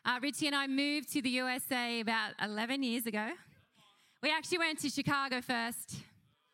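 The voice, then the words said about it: Australian accent. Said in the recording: “this is an Australian accent”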